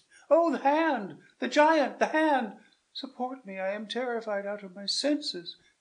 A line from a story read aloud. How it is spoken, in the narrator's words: cried Bianca